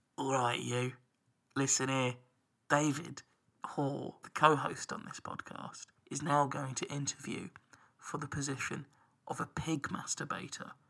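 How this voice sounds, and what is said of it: Whispering. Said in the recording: “I'll whisper”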